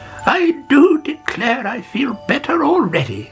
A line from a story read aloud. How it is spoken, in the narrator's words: she cried